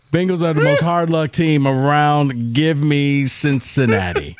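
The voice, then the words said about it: Gus Johnson impression. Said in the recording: “Gus Johnson impersonation.”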